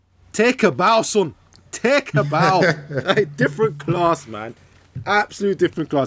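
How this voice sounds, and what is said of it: Put-on Nigerian Scottish accent. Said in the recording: “That was Nigerian Scottish accent.”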